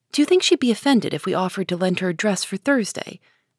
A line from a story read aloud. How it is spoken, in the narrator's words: asked another voice